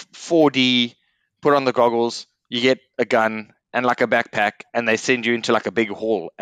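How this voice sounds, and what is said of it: Accent, 'hall' sounds like 'whore'. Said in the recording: “accent, you would have thought he just said whore”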